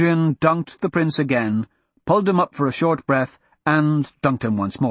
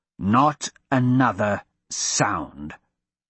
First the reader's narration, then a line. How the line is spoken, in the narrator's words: Hadrian growled